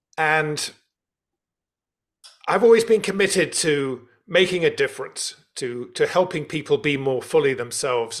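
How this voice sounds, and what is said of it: London English accent. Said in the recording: “You can tell from my accent, I was born and brought up in London.”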